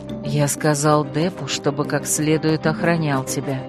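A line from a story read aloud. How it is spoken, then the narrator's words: Whisper. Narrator (Russian): прошептал Земка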